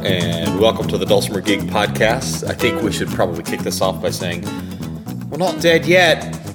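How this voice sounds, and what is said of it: Affected English accent. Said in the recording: “the affected uh, English accent”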